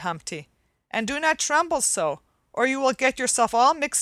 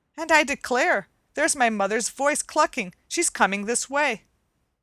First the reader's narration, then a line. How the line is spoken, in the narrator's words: cried Coochie Coo